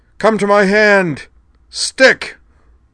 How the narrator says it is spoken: bellowed

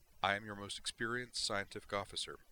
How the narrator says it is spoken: replied calmly

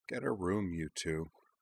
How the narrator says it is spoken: Anthi Tenjo mumbled from the far side of Ujna

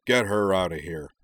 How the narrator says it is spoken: growled

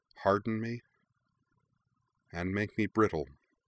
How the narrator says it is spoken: Azula murmured

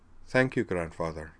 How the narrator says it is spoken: said Tali in a subdued voice

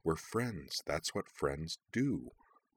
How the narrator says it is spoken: repeated in a low mutter

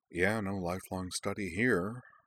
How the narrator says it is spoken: Cora rolled her eyes and muttered

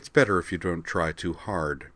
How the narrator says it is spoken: said Jurian

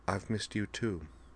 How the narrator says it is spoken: she replied softly

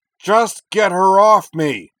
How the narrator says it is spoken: Corwin roared

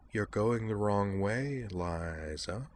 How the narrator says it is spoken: said Azalin in a soft, menacing voice, so utterly unlike her normal cheery chirp that it was nearly unrecognizable

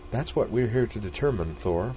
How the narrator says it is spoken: the blonde woman chided him gently

